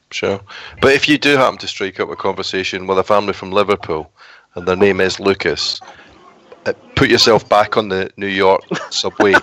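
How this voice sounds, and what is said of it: Liverpool accent. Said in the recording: “I could hear that Liverpool accent. I could hear it.”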